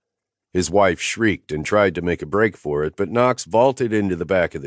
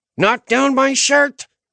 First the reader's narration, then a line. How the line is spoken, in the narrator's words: Naomi screeched from the back of the truck